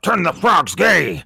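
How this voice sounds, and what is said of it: Alex Jones impression. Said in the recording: “A crazy guy called Alex Jones ... that is an amazing impression”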